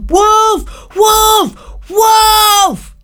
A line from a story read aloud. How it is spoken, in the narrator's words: screamed